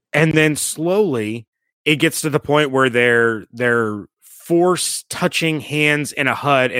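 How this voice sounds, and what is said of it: Usual voice. Nothing is said of it.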